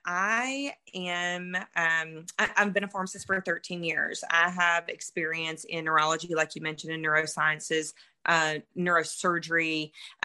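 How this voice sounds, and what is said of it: Mississippi Southern accent. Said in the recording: “I am from Mississippi originally. Hence the accent.”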